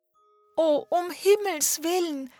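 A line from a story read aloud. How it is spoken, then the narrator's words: Calling out. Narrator (German): rief Sophie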